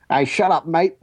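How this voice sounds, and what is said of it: Put-on Australian accent. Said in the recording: “that's a better Australian accent than he was giving... it's not a good impression of him. It's just a good impression of an Australian.”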